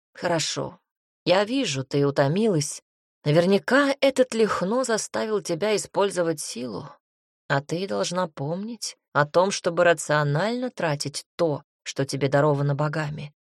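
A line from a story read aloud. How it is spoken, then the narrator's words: Serious tone. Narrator (Russian): уже серьезным тоном заявил князь Вяземский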